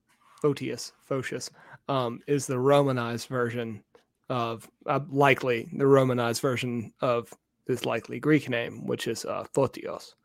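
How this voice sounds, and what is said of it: Southern American accent. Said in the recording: “butchered by a Southern accent”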